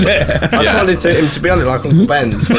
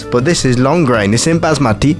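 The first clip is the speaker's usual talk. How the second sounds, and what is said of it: Put-on accent. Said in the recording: “Stop doing it in that accent.”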